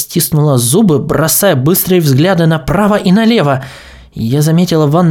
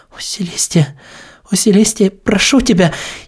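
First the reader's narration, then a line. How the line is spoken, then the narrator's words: Sobbing. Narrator (Russian): Я начала рыдать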